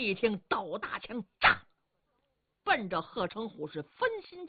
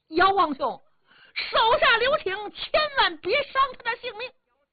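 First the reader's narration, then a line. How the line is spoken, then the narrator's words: Anxious shouting. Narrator (Chinese): 冯毅着急呀，恐怕姚琦打不过这贼人，喊嚷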